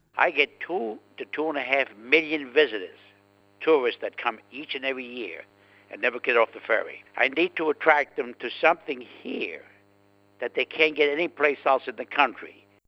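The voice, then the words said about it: Distinctive regional accent. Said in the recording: “What a fabulous accent.”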